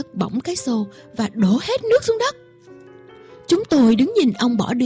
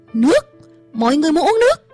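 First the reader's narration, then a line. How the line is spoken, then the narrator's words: Shout. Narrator (Vietnamese): Ông hét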